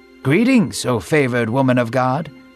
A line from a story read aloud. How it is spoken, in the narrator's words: he said warmly